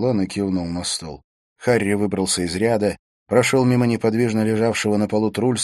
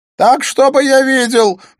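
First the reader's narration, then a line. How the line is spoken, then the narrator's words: Shouted. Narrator (Russian): прокричал Смит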